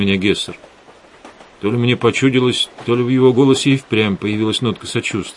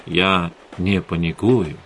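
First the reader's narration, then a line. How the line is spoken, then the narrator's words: Soft, gentle. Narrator (Russian): мягко сказал Эдгар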